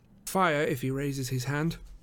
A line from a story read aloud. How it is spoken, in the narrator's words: said Holmes quietly